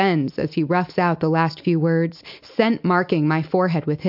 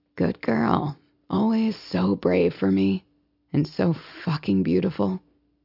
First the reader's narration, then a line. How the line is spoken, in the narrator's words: Smith, his approval clear, murmurs